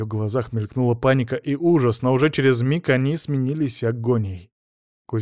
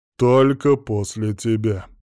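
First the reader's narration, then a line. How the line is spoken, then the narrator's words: Snorted. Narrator (Russian): фыркнул Кригер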